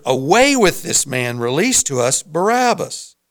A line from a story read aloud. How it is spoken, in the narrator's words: they all cried out together